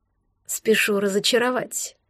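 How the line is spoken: Man's sigh. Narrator (Russian): вздохнул мужчина

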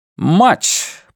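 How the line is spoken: Loud, emphatic repetition. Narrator (Russian): повторил директор громко, закрепляя термин

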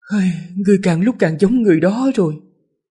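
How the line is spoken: Sighing. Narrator (Vietnamese): Giảng Đại Gia mới thở dài

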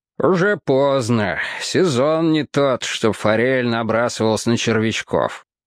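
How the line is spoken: Good-natured grumble. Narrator (Russian): добродушно проворчал цирюльник

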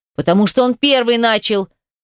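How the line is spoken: Emotional shouted reply. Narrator (Russian): кричал в ответ радужный старший, пытаясь хоть как-то совладать со своими эмоциями

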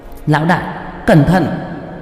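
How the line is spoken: Loud call. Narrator (Vietnamese): Qua Qua lớn tiếng kêu lên

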